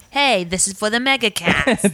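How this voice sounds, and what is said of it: Slight put-on Boston accent. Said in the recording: “You have to say it like that, though... Just with a slightly Boston accent, too... Just slight.”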